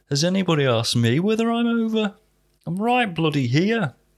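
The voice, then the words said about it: Put-on northern English accent. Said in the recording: “Don't know why COVID's got a northern accent.”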